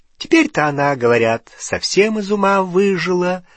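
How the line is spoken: Gleeful announcement. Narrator (Russian): радостно сообщила тетушка Мюриэль

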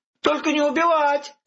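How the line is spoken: Innkeeper shouting. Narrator (Russian): кричал трактирщик

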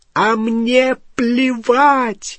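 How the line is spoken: Screaming. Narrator (Russian): завопила Гермиона

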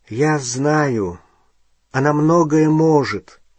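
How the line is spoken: Tired. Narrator (Russian): устало сказал Гарри

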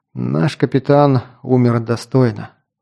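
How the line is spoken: Sighing. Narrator (Russian): вздохнул Кинт

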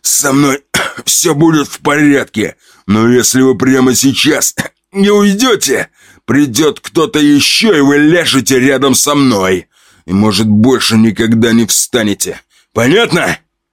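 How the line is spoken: Moaning, coughing up blood. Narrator (Russian): Откашливаясь кровью, жук простонал

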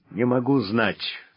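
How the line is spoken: Gloomy. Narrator (Russian): мрачно ответил Вольф

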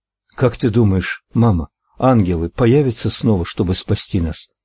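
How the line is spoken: Slightly trembling child. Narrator (Russian): Слегка дрожащим голосом поинтересовался малыш

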